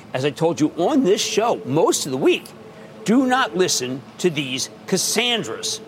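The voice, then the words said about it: Philadelphia accent. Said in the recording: “Sorry about that Philadelphia accent”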